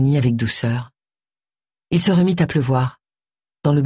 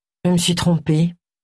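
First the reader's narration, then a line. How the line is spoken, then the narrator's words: Sad voice. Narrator (French): dit Agatha d'une voix triste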